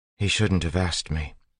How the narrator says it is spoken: Vin said quietly

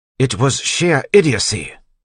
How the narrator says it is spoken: Tyndall snapped

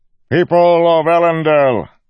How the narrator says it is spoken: Governor Innate said, his voice echoed across the square, loud and clear

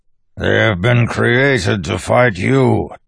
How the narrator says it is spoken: Tensoon growled from the ground, where he wrestled with one of the creatures while others tore at him

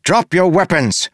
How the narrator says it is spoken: a voice shouted

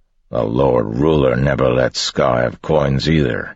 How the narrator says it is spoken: another voice grumbled

